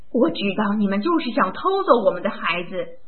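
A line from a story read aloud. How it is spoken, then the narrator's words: Woman yelling frantically. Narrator (Chinese): 女人像疯了一样的嚷道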